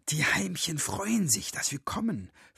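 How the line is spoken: Whispered in ear. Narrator (German): flüsterte er Miri ins Ohr

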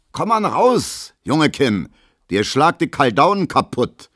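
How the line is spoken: Calling after someone. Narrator (German): ruft Gustav Schmelo hinterher

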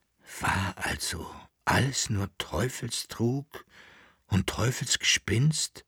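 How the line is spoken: Emperor whispering, deep sigh. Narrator (German): flüsterte der Kaiser mit einem tiefen Aufseufzen

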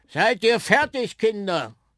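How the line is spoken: Sudden call from the background. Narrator (German): rief plötzlich eine Stimme aus dem Hintergrund

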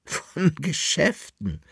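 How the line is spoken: Laughing. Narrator (German): lachte die Dame

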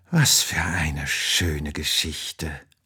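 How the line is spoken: Sleepy murmur. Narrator (German): murmelt sie und fällt schon in tiefen Schlaf

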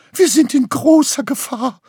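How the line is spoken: Wailing. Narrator (German): Graugans spuckte einen Fussel Wolle aus und jammerte

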